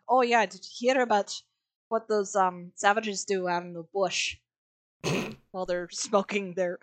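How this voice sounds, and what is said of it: Unclear attempted South African accent. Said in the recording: “South African mercenaries being like ... I do not know what fucking accent I did.”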